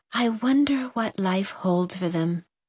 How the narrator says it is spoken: whispered

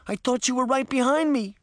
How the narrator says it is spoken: Daphne cried

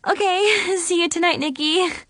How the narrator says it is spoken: I giggled

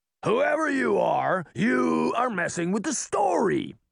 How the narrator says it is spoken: Shere Khan bellowed

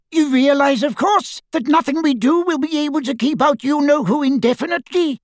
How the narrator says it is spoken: squeaked Flitwick

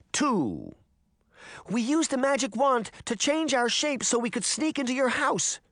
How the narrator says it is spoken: Daphne cried

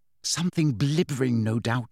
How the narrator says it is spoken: said Hermione under her breath

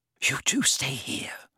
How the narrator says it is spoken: whispered Hermione

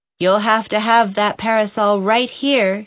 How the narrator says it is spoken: she said firmly

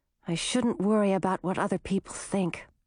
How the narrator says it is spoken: she muttered

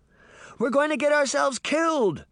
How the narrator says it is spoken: she shouted

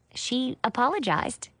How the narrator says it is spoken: I said

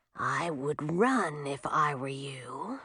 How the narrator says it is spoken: she whispered in a menacing voice

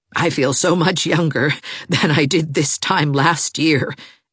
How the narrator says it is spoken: she added with a laugh

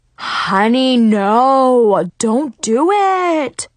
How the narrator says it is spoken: he cried

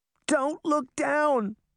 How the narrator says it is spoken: she cried

